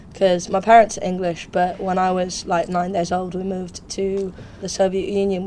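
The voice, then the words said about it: British-sounding English accent. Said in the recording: “your accent changes, but today it sounds quite UK-based”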